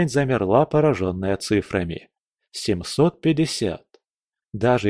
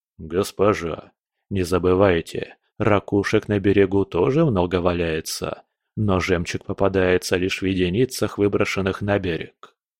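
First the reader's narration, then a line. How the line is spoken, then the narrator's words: Quiet male warrior. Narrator (Russian): Ее помощник, высокий молчаливый воин, тихо произнес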